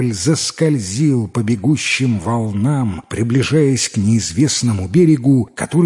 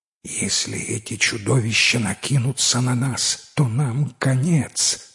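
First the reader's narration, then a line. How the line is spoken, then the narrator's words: Whisper. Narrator (Russian): прошептал капитан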